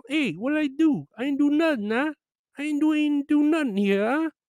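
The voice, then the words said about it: Put-on accent. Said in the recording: “Or whatever my accent would be at that time.”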